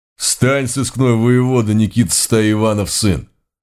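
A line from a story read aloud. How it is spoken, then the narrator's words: Menacing demand. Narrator (Russian): грозно потребовал один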